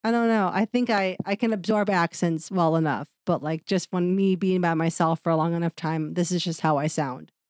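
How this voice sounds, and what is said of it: Nasal-sounding voice. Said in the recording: “It's nasally. I realize it's very nasally. ... I know I sound nasally.”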